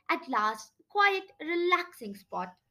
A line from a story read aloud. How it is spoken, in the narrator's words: said with a sigh